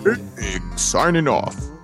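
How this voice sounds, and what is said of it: Radio announcer voice. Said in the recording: “my radio voice”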